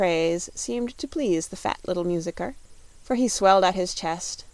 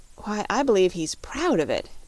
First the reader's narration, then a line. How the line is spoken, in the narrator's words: exclaimed Dorothy